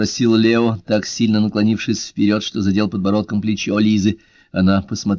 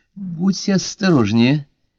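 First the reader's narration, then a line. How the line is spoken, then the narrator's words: Bittersweet warning. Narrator (Russian): предупредила кисло-сладким голосом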